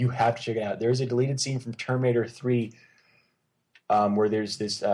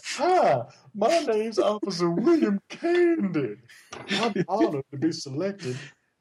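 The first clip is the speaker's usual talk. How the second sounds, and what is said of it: Exaggerated put-on southern accent. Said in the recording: “he's got this dumb southern accent.”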